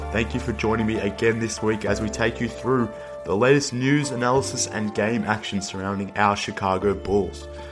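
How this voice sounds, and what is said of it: Sick-sounding, slightly off voice. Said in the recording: “my voice sounds a little bit funny this week ... I'm a little under the weather, so if I sound somewhat off”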